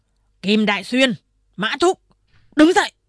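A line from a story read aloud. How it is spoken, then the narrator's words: Stern shout. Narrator (Vietnamese): Thầy thú mặt xanh nghiêm giọng quát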